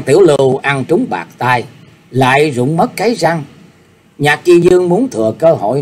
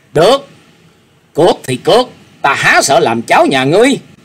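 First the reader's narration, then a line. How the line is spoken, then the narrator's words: Flushed, blurted angry shout. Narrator (Vietnamese): hai má của Dương Cảnh đã dồn căng máu, y buộc miệng quát lên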